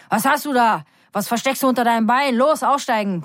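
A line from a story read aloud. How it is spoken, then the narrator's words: Bellowing. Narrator (German): brüllt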